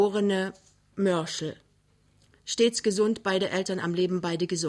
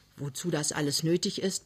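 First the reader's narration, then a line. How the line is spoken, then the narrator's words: Grumbled. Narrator (German): brummt er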